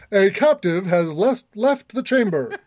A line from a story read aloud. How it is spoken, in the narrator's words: A deep, booming voice says